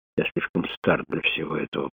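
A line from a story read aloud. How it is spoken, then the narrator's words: Whispered. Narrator (Russian): прошептал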